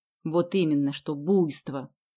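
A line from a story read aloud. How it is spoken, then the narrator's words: Displeased grumble. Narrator (Russian): недовольно проворчала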